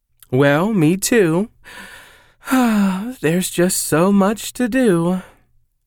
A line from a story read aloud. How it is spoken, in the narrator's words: Sally said ... with a dramatic sigh